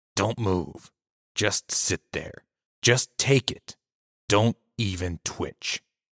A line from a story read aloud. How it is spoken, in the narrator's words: Uncle Tim hissed